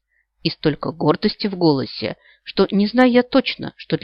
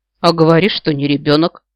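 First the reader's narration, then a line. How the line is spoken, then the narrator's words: Skeptical snort. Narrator (Russian): хмыкнула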